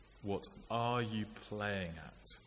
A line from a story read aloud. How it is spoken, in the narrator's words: asked